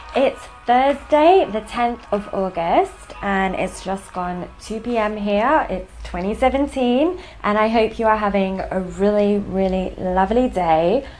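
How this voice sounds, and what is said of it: London English accent. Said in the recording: “I'm based in the United Kingdom in London, hence the accent”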